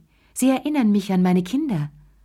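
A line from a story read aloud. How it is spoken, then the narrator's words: Sighing. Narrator (German): seufzte sie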